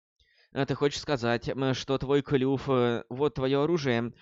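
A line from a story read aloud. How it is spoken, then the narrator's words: Heavy sigh. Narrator (Russian): Тяжело вздохнула молния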